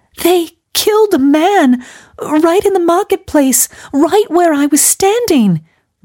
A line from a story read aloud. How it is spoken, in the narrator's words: wailed Gladys